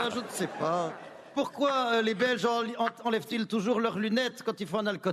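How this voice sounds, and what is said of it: Usual voice. Nothing is said of it.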